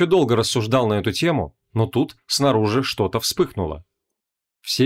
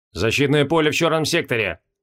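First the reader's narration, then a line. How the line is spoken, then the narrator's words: Growl. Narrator (Russian): рыкнул Моргнио Мороз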